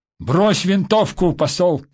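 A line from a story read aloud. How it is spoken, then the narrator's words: Shouting. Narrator (Russian): крикнул Дронго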